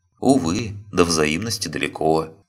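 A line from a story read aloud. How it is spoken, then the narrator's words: Sad sigh. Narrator (Russian): печально вздохнул Фауст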